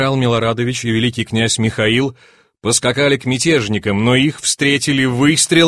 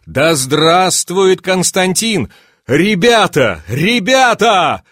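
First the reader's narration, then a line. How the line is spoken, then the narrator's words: Shouted. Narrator (Russian): закричал Милорадович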